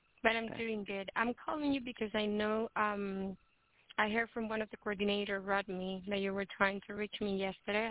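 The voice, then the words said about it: Sick, under-the-weather voice. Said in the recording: “a little bit under the weather, so if you can excuse my voice”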